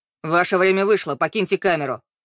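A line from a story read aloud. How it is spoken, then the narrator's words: Rough interrupting policeman. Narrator (Russian): Их разговор грубо оборвал полицейский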